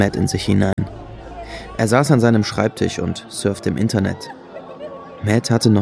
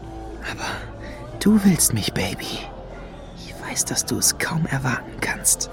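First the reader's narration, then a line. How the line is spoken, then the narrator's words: Whisper. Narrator (German): flüsterte er Lady Luna zu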